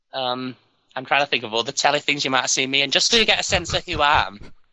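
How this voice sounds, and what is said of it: Northern English accent, dropped H's. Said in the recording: “my accent, because I'm from the north, I don't say my H's very well”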